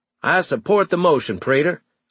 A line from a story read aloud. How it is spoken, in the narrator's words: I shouted